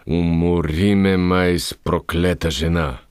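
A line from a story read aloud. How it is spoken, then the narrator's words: Groan. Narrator (Bulgarian): Изпъшка той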